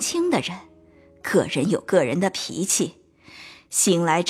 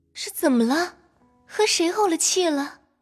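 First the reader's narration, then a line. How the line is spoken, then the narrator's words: Repeated asking. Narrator (Chinese): 连问几声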